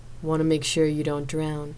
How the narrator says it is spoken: Zena chuckled wickedly

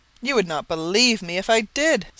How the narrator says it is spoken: Sir Henry said, with one of the hearty laughs which seemed to come right out of his great lungs

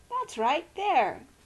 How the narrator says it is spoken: cried gratefully

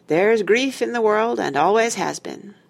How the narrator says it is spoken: sighed

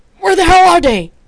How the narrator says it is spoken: He shouted

